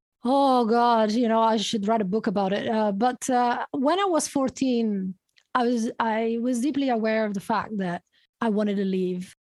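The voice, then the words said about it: Italian accent. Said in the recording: “you have that lovely accent. You're from Italy originally.”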